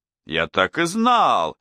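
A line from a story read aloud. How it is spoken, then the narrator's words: Exclamation. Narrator (Russian): воскликнул Лемей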